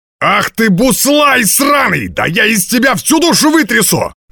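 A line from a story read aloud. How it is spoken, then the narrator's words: Tavern keeper shouting. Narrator (Russian): закричал хозяин пивной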